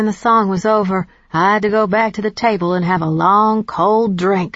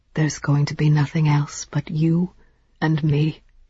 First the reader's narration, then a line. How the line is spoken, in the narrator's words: whispered